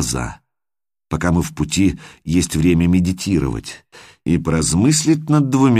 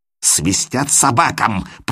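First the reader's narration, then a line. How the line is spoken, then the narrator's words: Hissing. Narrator (Russian): прошипел он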